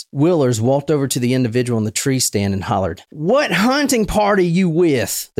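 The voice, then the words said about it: Put-on hick Southern accent. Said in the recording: “I don't know how to do a Wisconsin accent, but I do know how to do a Hick Southern accent, so I'm probably going to do that.”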